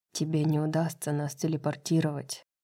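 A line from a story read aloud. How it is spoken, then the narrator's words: Quiet. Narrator (Russian): тихо сказал ей Кормак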